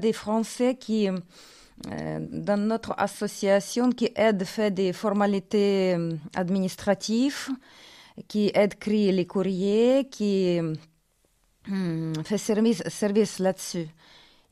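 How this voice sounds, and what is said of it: Foreign accent speaking French. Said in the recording (French): “mon joli accent ... Il est très bien, votre accent ... il dit que j'ai l'accent russe”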